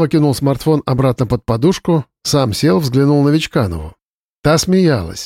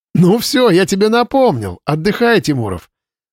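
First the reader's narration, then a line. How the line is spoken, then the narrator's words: Laughing. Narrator (Russian): засмеялся Вадим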